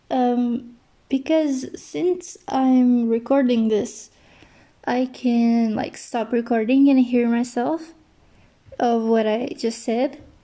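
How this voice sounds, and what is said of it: Speaks English with an accent. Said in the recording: “I'm very sorry for my accent. ... I can just hear my accent, and it's really like annoying”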